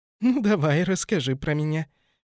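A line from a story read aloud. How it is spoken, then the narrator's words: Girl giggling. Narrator (Russian): хихикнула девушка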